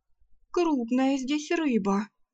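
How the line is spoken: Shaky voice. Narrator (Russian): дрогнувшим голосом заметила Арсана

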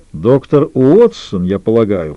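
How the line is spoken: Deep bass voice. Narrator (Russian): пробасил Лютер

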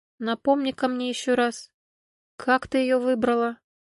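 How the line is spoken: Quiet. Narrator (Russian): Едвига негромко проговорила

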